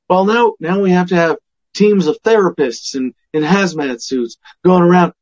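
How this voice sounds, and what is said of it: Mock authoritative government voice. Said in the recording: “This is my daddy government voice.”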